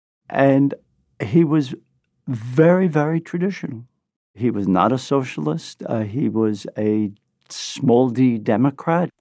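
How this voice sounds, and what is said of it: Brooklyn accent. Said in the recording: “This is my Brooklyn accent”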